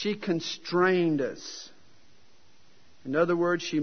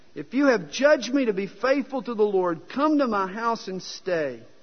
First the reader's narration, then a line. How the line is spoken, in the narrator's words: she begged us, saying